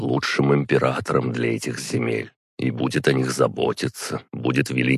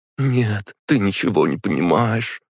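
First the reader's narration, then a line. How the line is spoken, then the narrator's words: Sobbing. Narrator (Russian): рыдала Радмила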